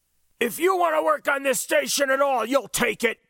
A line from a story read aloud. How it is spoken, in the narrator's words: Jake bellowed